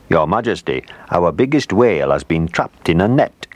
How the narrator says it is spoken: he said

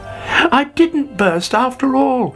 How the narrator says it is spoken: he cried delightedly

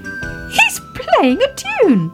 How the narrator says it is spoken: cried Baby Ted

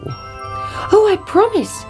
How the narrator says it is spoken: cried the princess

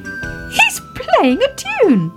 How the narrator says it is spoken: cried Baby Ted

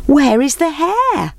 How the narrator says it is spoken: they called out

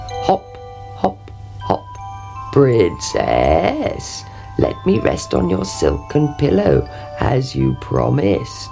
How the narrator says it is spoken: he croaked

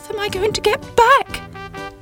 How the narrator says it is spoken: cried Sybil

